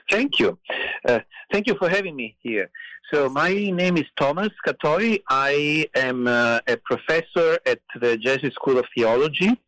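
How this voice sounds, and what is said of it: Italian accent. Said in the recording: “as you can probably tell from my accent, I grew up in Italy”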